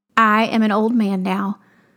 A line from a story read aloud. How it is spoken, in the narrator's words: Isaac said